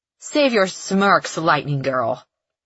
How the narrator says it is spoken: Evangeline snarls

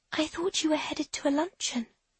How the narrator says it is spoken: she whispers

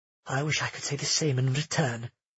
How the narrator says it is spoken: Nerissa said softly

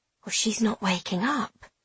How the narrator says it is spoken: she whispers to someone else

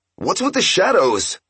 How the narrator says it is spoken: he shouted

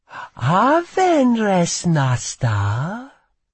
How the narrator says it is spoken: she purred in the smooth, Arnesian tongue

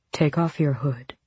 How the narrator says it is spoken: he said with a soft growl

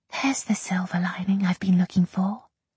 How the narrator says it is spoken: she whispered

